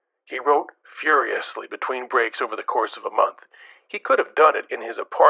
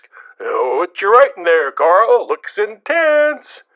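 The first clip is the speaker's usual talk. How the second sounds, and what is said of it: Condescending lilting voice. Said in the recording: “With a condescending lilt, I might add.”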